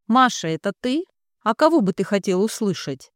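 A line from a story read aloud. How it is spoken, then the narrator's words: Snapping. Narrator (Russian): огрызнулась она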